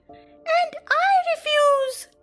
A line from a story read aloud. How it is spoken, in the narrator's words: cried Michael